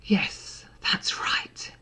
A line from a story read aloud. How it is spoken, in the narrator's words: he purred